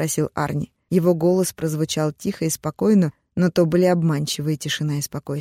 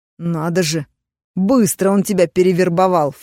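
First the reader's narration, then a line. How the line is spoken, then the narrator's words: Contemptuous snort. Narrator (Russian): фыркнул Арни, кривя губы в презрительной усмешке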